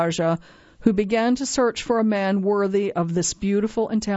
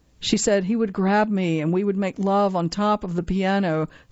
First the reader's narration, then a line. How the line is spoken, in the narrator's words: says Sirota